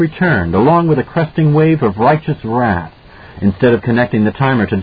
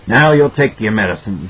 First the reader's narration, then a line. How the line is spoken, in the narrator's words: Jack grunted